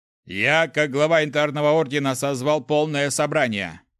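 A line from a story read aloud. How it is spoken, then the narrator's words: Loud public announcement. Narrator (Russian): Произнес он так громко, чтобы все это слышали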